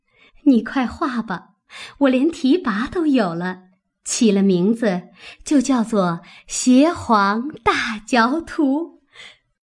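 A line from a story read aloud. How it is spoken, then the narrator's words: Laughing heartily. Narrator (Chinese): 黛玉一面笑得两手捧着胸口，一面说道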